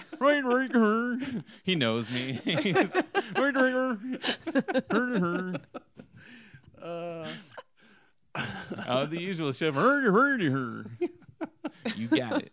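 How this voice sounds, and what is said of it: Bad Swedish chef impression. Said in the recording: “Is the Swedish chef back there preparing them for you? ... Terrible impersonation. ... all my impersonations are bad.”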